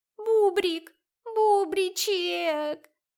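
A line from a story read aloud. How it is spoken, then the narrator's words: Whimpering. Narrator (Russian): скулила Велена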